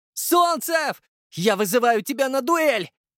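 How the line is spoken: Shout. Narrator (Russian): Софья закричала

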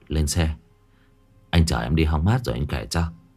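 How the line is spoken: Sighing. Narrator (Vietnamese): Bình thở dài

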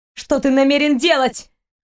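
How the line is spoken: Shouted, young woman. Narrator (Russian): выкрикнула девушка

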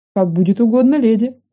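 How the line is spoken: Snorting, wry. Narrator (Russian): хмыкнул полукровка

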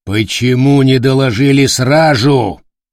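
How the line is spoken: Roaring. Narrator (Russian): взревел канцлер

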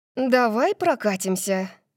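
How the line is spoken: Breathless exhale. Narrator (Russian): выдохнула

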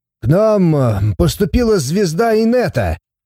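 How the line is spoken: Cheerful shout, skinny young man. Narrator (Russian): весело прокричал щуплый парень

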